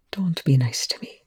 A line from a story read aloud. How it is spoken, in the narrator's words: Rush murmured